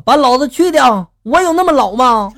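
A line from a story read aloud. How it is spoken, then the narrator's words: Loud angry scolding. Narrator (Chinese): 此女呢反应极大，大声的就怒斥了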